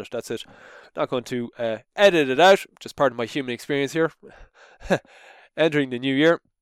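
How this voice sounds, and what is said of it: Slightly congested, sniffly voice. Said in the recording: “I got a bit of sniffles at the moment, so my voice is a little bit funny”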